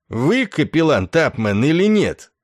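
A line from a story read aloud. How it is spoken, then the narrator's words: Barking, flabby colonel. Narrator (Russian): рявкнул обрюзгший полковник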